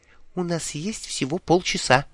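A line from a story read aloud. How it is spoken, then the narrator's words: Conspiratorial whisper. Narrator (Russian): заговорщическим шепотом сообщила она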